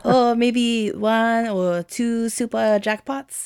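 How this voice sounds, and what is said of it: Poor French accent. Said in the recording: “My French accent's not very good.”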